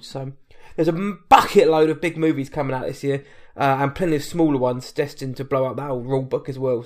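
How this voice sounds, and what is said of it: British accent. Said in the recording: “What I Watch Tonight is UK-based, hence the accent.”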